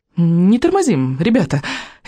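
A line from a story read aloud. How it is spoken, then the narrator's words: Forced cheerfulness. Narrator (Russian): Изабель постаралась, чтобы это прозвучало бодро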